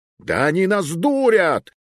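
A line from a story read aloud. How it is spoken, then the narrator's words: Sudden yell, dragoon. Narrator (Russian): заорал вдруг смуглый драгун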